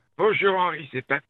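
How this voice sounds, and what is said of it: Convincing old man voice. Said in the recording (French): “prendre la voix d'un vieux ... C'est qu'il est bon en plus ... Il est bon, il fait super bien le vieux.”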